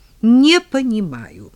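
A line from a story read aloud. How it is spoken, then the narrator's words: Furious exclamation. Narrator (Russian): в состоянии крайнего озлобления воскликнула Карина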